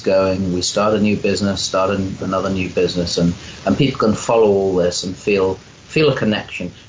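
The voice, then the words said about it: English accent. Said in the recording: “as people will hear from your accent, you are a child of Albion... English priest... English accent”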